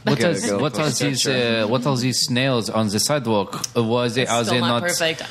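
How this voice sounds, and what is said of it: Put-on Parisian French accent. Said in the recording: “He was from a very specific part of France. That's the dialect I was doing. It was really good. ... He was Parisian.”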